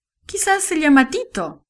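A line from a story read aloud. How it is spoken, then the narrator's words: Father laughing. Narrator (Spanish): dijo el papá riendo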